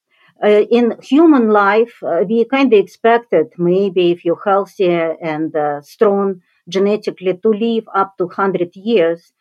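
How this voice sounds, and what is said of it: Russian accent. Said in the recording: “my background, of course, Russian, you can judge by accent”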